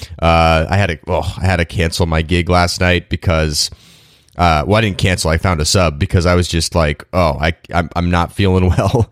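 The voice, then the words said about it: Congested, stuffy head-cold voice. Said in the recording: “I've got a serious head cold going on today, so I apologize for my voice.”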